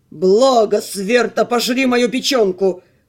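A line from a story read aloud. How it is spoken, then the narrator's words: Growl. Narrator (Russian): прорычал Димитрион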